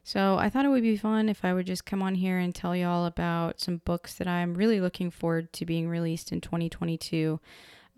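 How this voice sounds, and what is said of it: Hoarse, slightly off voice. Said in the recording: “I sound a little hoarse or a little off, I have been sick all week, and I completely lost my voice”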